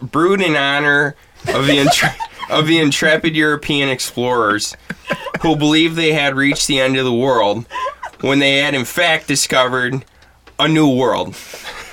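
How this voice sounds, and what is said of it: Exaggerated Midwest American accent. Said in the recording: “just do the most Midwest accent that I can do”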